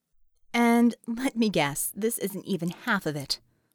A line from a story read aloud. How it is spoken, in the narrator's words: Ramona remarked dryly